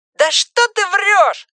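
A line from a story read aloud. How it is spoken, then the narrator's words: Shout from behind. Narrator (Russian): закричал кто-то у девочки за спиной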